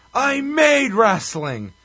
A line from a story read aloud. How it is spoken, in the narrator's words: Sinclair yells